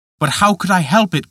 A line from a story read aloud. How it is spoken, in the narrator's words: cried Peter